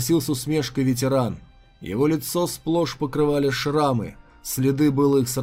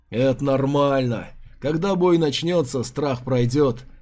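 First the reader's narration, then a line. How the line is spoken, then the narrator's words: Veteran chuckling. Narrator (Russian): хохотнул ветеран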